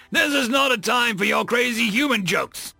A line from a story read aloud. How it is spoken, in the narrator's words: Quirrell had recovered himself enough to yell at his crewmate